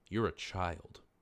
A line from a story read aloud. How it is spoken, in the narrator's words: she said, her voice low